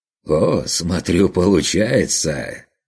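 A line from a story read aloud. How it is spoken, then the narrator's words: Pleased chuckle. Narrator (Russian): довольно хохотнул торговец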